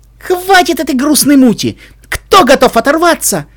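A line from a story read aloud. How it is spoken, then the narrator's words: Shouted. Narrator (Russian): выкрикнула она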